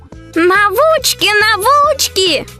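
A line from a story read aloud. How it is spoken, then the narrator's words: Joyful yell. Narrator (Russian): опять радостно завопила Марьяша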